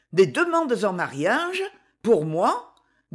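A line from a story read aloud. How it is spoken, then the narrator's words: Incredulous. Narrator (French): dit-elle d'un ton incrédule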